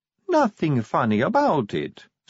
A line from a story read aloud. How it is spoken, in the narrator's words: said Sally sweetly